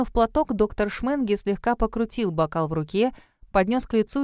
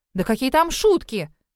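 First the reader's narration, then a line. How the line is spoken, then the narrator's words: Exclaimed. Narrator (Russian): воскликнула я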